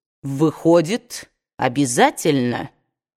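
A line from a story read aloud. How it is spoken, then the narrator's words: Cold statement. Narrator (Russian): холодно заявил он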